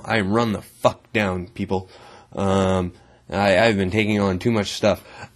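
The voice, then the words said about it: Rough, run-down sounding voice. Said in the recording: “As you may hear from my voice, I sound kind of shitty, you a little shittier than normal.”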